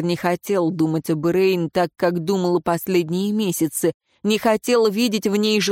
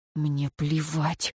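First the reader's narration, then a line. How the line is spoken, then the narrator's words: Whispered like incantation. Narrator (Russian): как заклинание прошептал Шамис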